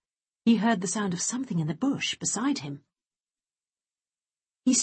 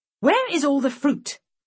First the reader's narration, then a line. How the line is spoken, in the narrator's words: shouted